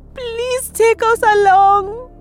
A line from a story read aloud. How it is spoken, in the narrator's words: they sobbed